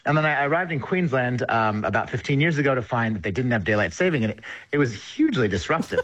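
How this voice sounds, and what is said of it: American accent. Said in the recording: “You can probably hear my accent. I'm originally from the United States”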